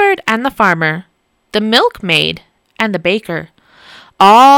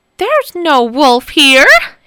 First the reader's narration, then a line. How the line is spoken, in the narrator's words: he shouted